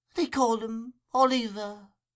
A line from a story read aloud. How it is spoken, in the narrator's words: replied the woman feebly